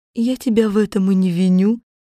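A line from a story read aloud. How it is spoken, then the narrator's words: Calm objection. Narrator (Russian): спокойно возразила волшебница Велина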